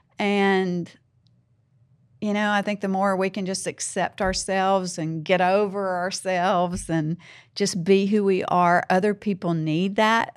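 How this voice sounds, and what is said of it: Southern American accent. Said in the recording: “Southern ... I'm Southern. ... I have an accent.”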